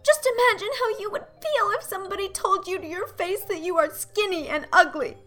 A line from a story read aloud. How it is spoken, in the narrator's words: pleaded Anne tearfully